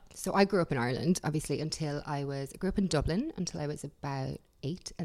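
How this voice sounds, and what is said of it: Irish accent. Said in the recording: “as you can probably tell from your accent, you are from Ireland.”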